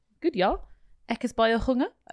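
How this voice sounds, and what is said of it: Put-on South African accent. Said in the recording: “Good South African accent, eh?”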